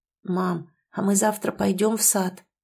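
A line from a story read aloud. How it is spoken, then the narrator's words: Muttered. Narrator (Russian): пробормотал Даррен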